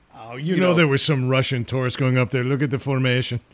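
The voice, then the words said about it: Bad put-on Russian accent. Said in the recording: “That was my Russian accent ... That was pretty good ... That was the worst Russian accent ever ... You sounded like Vladimir”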